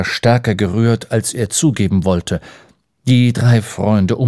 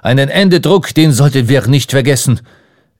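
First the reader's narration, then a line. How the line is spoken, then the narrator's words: Calling out. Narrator (German): rief Ardan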